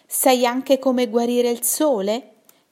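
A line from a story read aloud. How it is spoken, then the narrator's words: Plain. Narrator (Italian): chiese Nuvola Nera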